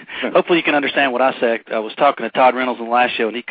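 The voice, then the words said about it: Southern US accent. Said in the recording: “I'm in Alabama. You're going to struggle tonight with these accents.”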